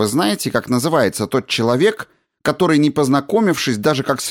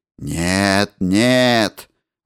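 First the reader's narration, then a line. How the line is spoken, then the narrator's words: Muffled objection. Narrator (Russian): возразил я глухим голосом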